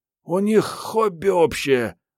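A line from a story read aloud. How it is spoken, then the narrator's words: Gloomy statement. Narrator (Russian): мрачно сообщила Мариетта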